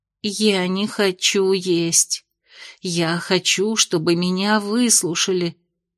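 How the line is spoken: Tired mutter. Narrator (Russian): устало пробормотала Венди в пустоту

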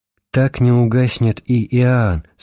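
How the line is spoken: Plain. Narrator (Russian): сказал он

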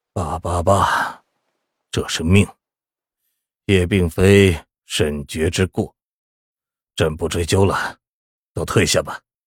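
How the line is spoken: Muffled, dejected old man. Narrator (Chinese): 老皇帝颓败下来，双手捧着脸，过了半晌，他的声音从指缝里闷闷地传出来

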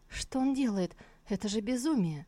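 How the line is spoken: Frightened mutter. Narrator (Russian): испуганно пробормотала Сусу, с ужасом

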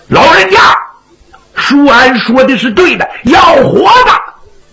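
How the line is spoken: Shouted from behind. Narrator (Chinese): 白玉瑞在后头一喊

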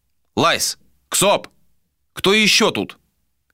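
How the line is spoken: Shouted. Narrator (Russian): крикнул Адер

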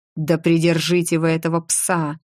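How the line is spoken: Growl in foreign tongue. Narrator (Russian): Фредерик рыкнул на имперском так, что даже Грей на какое-то время замер

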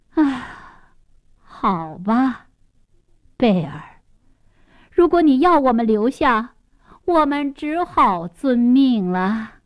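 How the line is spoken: Sighing. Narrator (Chinese): 公爵夫人叹口气

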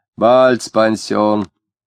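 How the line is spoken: Loud speech. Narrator (Russian): громко сказал

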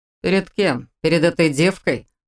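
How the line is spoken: Snorting. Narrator (Russian): Фыркнул Глен

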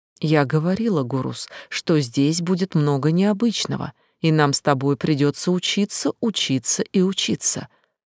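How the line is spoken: Very gentle reminder. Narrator (Russian): очень мягко напомнила ему

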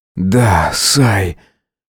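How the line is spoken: Hoarse voice. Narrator (Russian): хрипло проговорил он

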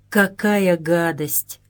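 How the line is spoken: Through gritted teeth. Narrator (Russian): процедил сквозь зубы Юргенс

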